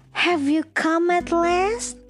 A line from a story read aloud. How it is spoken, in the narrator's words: she cried